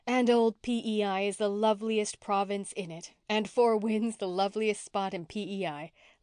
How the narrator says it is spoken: laughed Anne

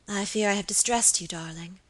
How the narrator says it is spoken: murmured Lady Audley

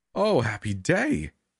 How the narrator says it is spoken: Minister Dentry cried happily

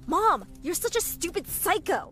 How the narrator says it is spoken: I shouted at her

